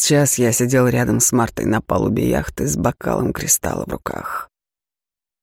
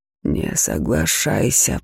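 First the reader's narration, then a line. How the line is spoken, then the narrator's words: Hissing in the ear. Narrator (Russian): прошипел мне в ухо голос разума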